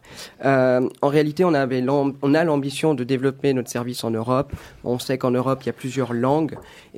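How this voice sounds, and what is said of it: Swiss French accent. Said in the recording (French): “d'origine suisse. On, l'entendra d'ailleurs ... mon accent n'est pas trop fort”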